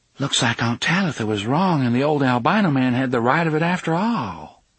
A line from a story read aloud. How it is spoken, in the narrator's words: said in an awed voice